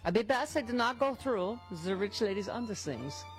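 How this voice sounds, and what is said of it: Put-on Gabor-style accent. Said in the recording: “I don't know why I'm doing that accent. ... Yeah, that's Jean Jacques Gabor.”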